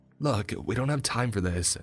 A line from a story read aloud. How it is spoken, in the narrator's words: Sam pleaded